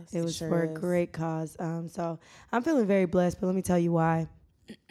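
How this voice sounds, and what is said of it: Hoarse, partly lost voice. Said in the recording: “My voice is a little gone”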